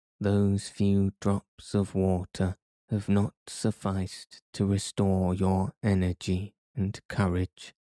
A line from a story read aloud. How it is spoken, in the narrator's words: said the professor, in a very singular tone of voice